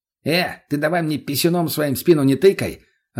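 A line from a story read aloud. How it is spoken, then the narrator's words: Snapped irritably. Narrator (Russian): огрызнулся Мутный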